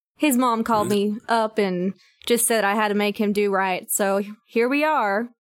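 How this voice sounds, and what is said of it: Speaks with an accent. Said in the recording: “Oh, you got an accent.”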